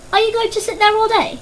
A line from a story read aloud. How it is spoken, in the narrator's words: called out loudly